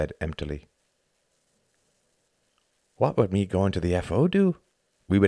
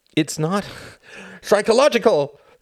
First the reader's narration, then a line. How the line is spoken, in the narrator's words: cried Tom, his inner pond overflowing with bile